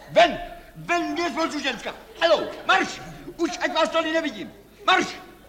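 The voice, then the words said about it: Shouting angrily. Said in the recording (Czech): “Nekřičte.”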